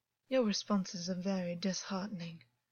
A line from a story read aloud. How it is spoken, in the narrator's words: August said, and his voice was a cold politeness which wouldn't have sounded amiss in his own family